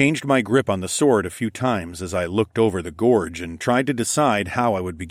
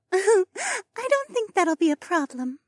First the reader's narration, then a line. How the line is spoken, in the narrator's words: Mariah giggled